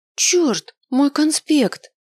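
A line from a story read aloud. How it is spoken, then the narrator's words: Horrified exclamation. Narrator (Russian): Воскликнула я с ужасом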